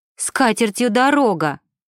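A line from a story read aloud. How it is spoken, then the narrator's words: Exclamation. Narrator (Russian): воскликнула Ева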